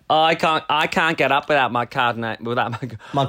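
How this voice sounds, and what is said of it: Put-on Australian accent. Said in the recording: “I'm doing my Aussie accent”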